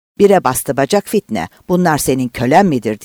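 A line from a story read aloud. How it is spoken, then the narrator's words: Shouted. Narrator (Turkish): diye bağırdı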